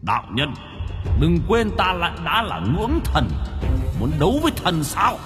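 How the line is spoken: Harsh, forceful tone. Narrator (Vietnamese): gằn giọng

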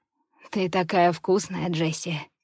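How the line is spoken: Hoarse rasp. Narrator (Russian): хрипит он

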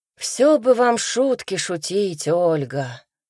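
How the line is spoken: Sighing man. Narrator (Russian): вздохнул мужчина

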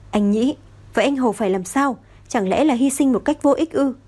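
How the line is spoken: Screamed, eyes reddened. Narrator (Vietnamese): Tang Cẩu không cảm thấy đau, ánh mắt hồng hồng gào thét

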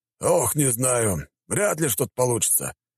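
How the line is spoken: Sighing. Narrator (Russian): вздохнул его товарищ

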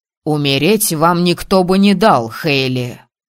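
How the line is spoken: Growl. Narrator (Russian): рыкнул Асгар

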